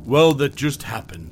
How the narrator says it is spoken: I said

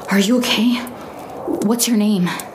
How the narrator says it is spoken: I asked breathlessly

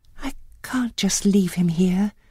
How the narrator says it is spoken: she said softly

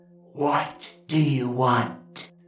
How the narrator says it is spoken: The demoness hissed from the darkness of the hollow

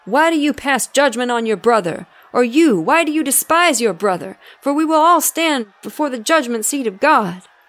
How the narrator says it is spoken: He shouted

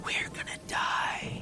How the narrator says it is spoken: she whispered

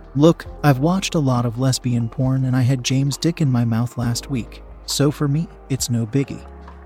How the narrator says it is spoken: she said, calmly

